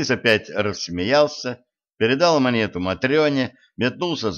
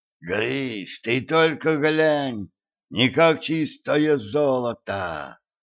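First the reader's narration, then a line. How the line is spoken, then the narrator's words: Strained, forced out. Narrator (Russian): С трудом выдавил из себя Митяй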